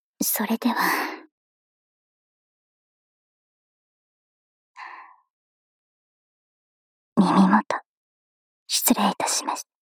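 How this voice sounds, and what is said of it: Sweet soft whisper. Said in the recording (Japanese): “甘く囁いてほしいとおっしゃった ... ゾクゾクするくらい、甘く、囁いて差し上げますから”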